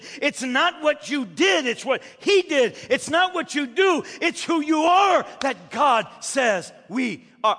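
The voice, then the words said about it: Yelling, loud emphatic preaching. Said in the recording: “I'm yelling, aren't I? I'm yelling. My wife is looking at me, you're yelling.”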